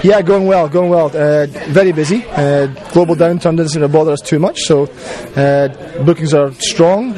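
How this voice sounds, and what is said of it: Scottish accent. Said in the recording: “The accent kind of makes you feel friendly ... The Scottish accent.”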